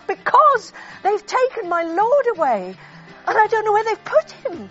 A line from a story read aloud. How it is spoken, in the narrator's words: I blurted out